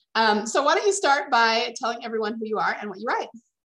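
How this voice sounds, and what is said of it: Slightly scratchy voice. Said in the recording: “I actually am recovering from a cold, so my voice is a little bit scratchy today”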